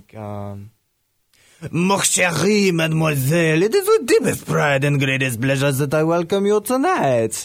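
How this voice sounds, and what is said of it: Put-on French accent. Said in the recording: “if I could do an impression ... Pull out a little French accent.”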